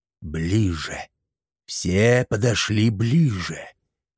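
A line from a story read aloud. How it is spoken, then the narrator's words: Sorcerer hissing. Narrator (Russian): Вновь прошипел колдун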